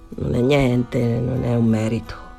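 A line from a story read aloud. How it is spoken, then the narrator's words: Embarrassed murmur. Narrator (Italian): Danny rimase imbarazzato, mormorò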